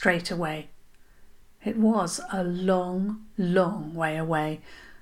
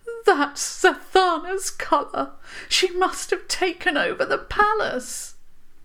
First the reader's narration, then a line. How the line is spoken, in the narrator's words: Princess Sirola gasped